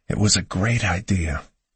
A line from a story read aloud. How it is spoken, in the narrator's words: I whispered to Hannah